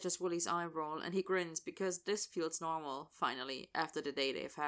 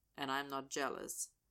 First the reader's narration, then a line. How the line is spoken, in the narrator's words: Austin says flatly